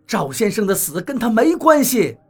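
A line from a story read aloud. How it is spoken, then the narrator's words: Shouting. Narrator (Chinese): 我对他喊道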